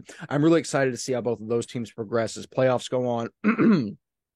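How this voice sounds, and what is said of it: Strained, failing voice. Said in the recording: “My voice is failing.”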